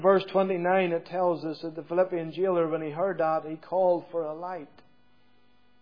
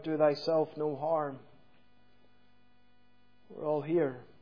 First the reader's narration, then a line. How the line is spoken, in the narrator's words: Paul cries out